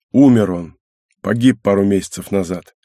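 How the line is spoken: Gloomy answer. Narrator (Russian): ответил капитан мрачно

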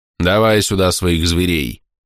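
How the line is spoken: Amused grumble. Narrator (Russian): проворчал учитель, явно наслаждаясь моим замешательством

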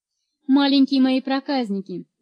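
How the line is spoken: Laughing. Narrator (Russian): заметила тетя Фен, смеясь

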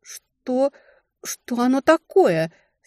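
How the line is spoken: Stammering voice. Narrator (Russian): сказала запинающимся голосом

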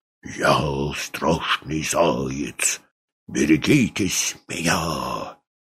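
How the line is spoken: Sinister whisper. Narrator (Russian): он зашептал зловещим голосом

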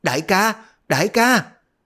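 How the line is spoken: Panicked frightened shout. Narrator (Vietnamese): Đoàn Dự bất giác sợ hãi, chân tay cuống cuồng miệng la

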